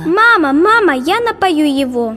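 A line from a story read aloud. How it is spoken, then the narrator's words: Excited child shouting. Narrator (Russian): Кричала она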